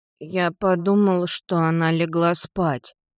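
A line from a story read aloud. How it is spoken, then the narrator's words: Mumbled. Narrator (Russian): промямлил Кристофер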